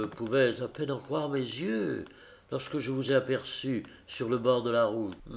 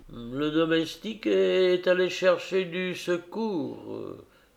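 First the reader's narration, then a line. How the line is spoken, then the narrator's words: Moaning. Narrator (French): gémit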